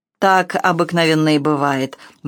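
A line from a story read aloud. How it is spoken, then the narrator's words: Grim smirk. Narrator (Russian): мрачно усмехнулась леди Бофорд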